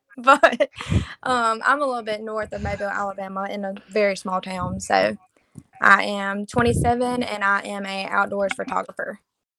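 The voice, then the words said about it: Southern Alabama accent. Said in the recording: “I'm from pretty much Mobile, Alabama. As you can tell of my accent.”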